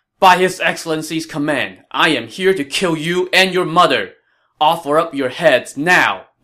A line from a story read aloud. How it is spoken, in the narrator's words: Yu Jin shouted